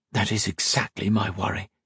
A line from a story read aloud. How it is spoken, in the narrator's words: whispered